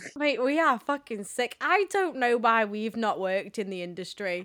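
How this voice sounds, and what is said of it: Usual voice. Nothing is said of it.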